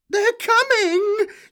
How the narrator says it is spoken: she shrieked

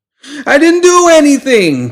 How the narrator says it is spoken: pleaded the chef as he backpedaled desperately

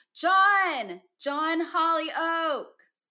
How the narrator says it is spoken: shouted with all the power of my lungs

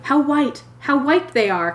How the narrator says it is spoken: cried the young man

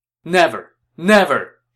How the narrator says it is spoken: Shen Pei shouted

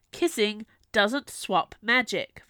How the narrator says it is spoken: Viola snapped back

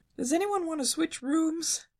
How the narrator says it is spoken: Shaggy moaned, trembling

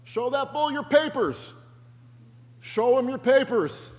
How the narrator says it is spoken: The old farmer yelled

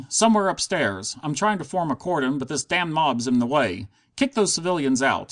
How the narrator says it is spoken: cried

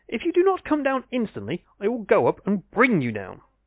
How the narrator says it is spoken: he cried angrily

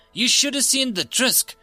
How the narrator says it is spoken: gasped out

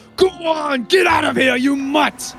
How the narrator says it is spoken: He's gonna bellow

